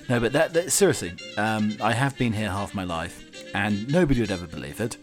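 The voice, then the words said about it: English accent. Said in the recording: “an ex uh, Pat uh, Englishman living in uh, Colorado ... I can't shake all this bloody accent”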